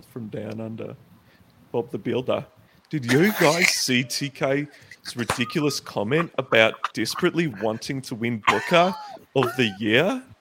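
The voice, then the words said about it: Put-on Australian accent. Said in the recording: “read the next one in an Australian accent. I want to hear the Australian accent.”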